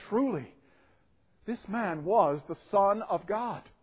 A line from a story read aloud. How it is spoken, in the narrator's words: when the centurion, which stood over against him, saw that he so cried out and gave up the ghost, he said